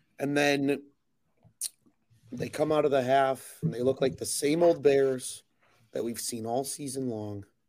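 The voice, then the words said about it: Very hoarse voice. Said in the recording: “hear it in my voice ... I am very hoarse”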